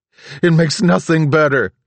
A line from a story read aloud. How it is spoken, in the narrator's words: he screamed